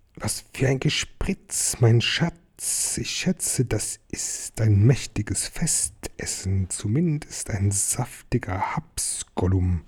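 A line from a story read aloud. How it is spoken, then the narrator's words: Whispering and hissing. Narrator (German): Gollum wisperte und zischte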